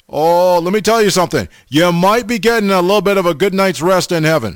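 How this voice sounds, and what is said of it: Sarcastic delivery. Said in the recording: “I'm being sarcastic.”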